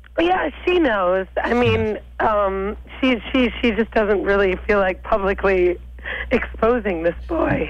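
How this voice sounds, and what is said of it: New York accent. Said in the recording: “I hear an accent there also ... I'm from New York.”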